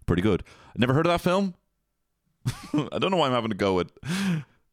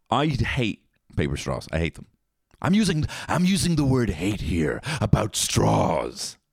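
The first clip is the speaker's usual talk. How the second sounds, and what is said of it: Imitates another person's voice. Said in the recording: “That's my Jack Nicholson.”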